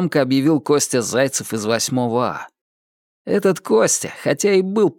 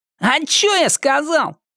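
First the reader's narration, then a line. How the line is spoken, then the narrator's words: Loud, theatrical. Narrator (Russian): Громко, как в театре, ответил Костя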